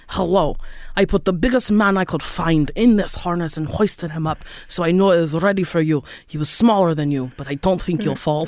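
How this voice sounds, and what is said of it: Imitated Romanian accent, admittedly bad. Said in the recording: “is it racist if I do his accent? ... I don't think enough people know a Romanian accent. ... I'm probably doing a bad one”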